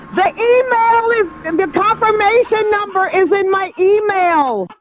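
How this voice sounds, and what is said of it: Yelling loudly. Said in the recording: “Why are you yelling?”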